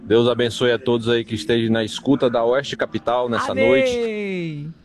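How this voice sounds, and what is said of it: Slight non-local regional accent. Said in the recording (Portuguese): “ele tem um sotaquezinho, né? Não é daqui, não.”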